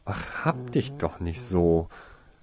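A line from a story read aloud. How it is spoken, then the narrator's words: Groaning. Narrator (German): stöhnte Winona auf, als sie dies bemerkte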